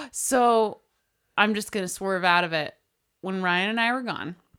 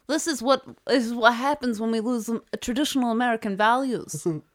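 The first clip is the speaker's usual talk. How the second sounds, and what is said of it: Old lady voice, slightly Jewish. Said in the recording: “This is my old lady voice ... it's going a little Jewish”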